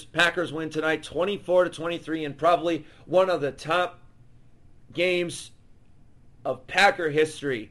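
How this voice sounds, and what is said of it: Hoarse, strained, worn-out voice. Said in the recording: “My voice is gone, guys. I'm sorry. My voice is absolutely history.”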